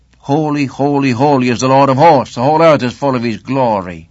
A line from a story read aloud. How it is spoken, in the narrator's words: they cried